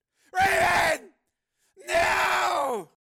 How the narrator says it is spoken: He screamed

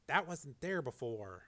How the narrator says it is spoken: Frank said softly

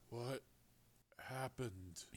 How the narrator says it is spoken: asked, surprised at the weak and raspy sound of his voice

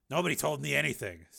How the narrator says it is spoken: said Steele bitterly

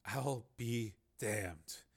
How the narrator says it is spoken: Higgins said in a low voice

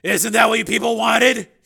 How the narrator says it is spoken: He said harshly

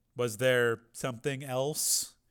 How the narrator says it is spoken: said Rick

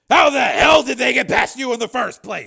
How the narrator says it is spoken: Steele snapped

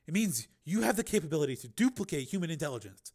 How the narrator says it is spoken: she said excitedly

